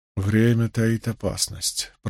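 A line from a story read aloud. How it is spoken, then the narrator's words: Mumbled. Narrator (Russian): пробормотал он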